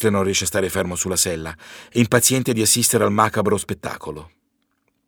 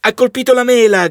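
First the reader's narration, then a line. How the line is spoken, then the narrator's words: Several people shouting. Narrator (Italian): gridano alcuni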